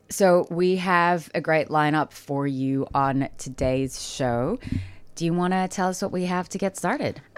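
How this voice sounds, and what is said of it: Stuffy, congested voice. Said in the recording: “you might be able to hear it in my voice ... My eyes and nose have been so itchy. I've been sneezing all over the place”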